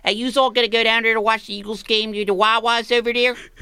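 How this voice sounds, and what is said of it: Local Philadelphia-area accent. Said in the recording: “the closest thing to a medieval accent is the local people who say things like ... That's how people talk.”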